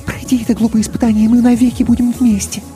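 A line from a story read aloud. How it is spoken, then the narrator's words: Quick whisper. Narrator (Russian): Мийка быстро шепнула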